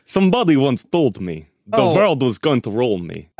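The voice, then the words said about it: Put-on Russian accent. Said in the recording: “Slavic, Russian.”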